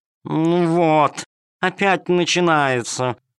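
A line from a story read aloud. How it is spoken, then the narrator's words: Purring cat. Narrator (Russian): промурлыкала кошка-хромоножка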